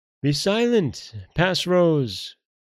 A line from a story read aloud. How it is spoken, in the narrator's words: cried Our Son in a loud voice